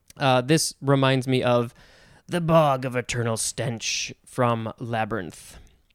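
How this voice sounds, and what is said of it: Quiet impression of Hoggle. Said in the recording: “not my best Huggle impersonation because I don't want to get too loud. I have to be a little louder to do it. And also, I haven't practiced.”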